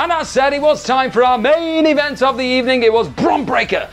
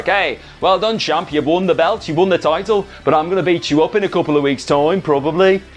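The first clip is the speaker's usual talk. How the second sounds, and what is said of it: Bad put-on Brummy accent. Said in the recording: “That's the worst Brummy accent I've ever done”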